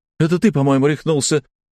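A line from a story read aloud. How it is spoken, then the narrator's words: Shouting. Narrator (Russian): закричала Жанна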